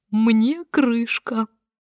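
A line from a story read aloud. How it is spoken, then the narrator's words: Frightened ceaseless muttering. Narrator (Russian): Он стал белее мела и без остановки бормотал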